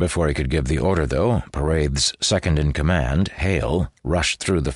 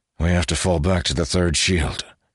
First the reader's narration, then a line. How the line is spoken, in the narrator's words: he concluded in a heavy tone